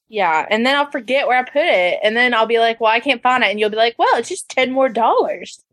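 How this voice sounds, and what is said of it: Strong regional accent. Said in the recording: “your accent is 15 times stronger than it was ... I just came back from Arkansas too this week. You always say it gets stronger when I go up there.”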